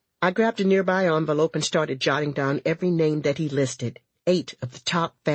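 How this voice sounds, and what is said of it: Usual voice. Nothing is said of it.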